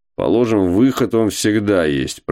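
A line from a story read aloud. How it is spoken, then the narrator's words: Grumbling. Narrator (Russian): проворчал Кузьма Иванович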